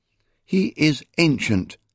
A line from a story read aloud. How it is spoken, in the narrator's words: Beckatha replied firmly